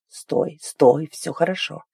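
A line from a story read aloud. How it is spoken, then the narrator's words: Hoarse whisper. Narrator (Russian): прошептал хрипло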